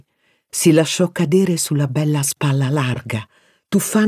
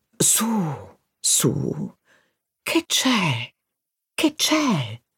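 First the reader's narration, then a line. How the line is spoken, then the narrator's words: Soothing murmur. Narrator (Italian): mormorò, come quando si calma un animale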